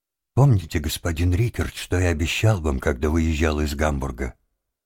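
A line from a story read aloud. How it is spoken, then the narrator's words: Calm question after tears. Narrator (Russian): Он вытер рукой слезы и спокойно спросил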